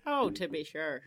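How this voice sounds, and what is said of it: Put-on Irish accent. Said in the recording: “Do you have a good Irish accent now, though? Can you do a good...”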